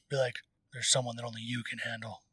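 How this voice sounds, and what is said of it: Deep gravelly Dark Knight-style voice. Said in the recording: “gave him the Dark Knight voice”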